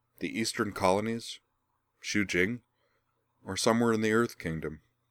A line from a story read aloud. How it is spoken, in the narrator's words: with a faintly sardonic little smile